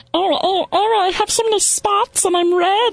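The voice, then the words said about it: High-pitched helium ladybug voice. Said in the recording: “Maybe you do that helium thing you do. That would be a good insect voice, right? ... That'd probably be like a ladybug.”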